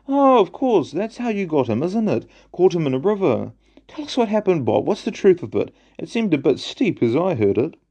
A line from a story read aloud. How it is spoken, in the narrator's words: one of the others exclaimed